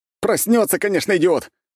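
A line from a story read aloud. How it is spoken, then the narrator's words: Shouting. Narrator (Russian): закричал Семушкин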